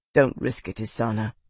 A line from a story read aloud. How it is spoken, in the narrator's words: Roth said, his voice quiet